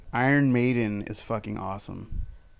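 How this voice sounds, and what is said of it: Attempted English accent, sounds Australian. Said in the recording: “I did not do an English accent ... That sounded Australian.”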